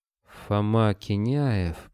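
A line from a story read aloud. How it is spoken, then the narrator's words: Moan. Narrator (Russian): простонал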